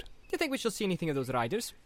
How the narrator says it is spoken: asked Pippin cheerfully

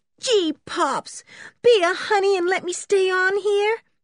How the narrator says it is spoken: begged Berta

